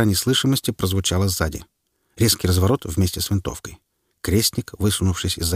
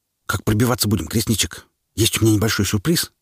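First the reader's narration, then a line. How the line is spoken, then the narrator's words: Whispered. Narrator (Russian): Приходилось шептаться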